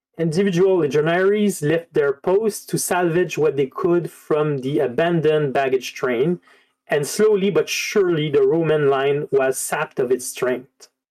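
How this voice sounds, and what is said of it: Non-native accent speaking English. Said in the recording (French): “excusez encore mon accent”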